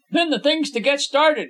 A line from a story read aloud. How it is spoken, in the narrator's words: Habert exclaimed